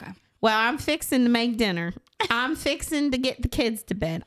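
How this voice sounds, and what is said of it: Put-on Southern accent, imitating someone. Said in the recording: “a southern accent ... my best impression of Marissa has to use the word fixin'”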